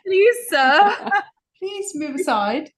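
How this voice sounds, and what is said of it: Put-on English accent. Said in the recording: “with your english tone. accent”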